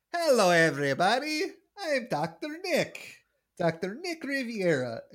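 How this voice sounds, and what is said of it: Bad impression of a cartoon character. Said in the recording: “as you could clearly tell by my character work, is a bad Ricky Ricardo impression.”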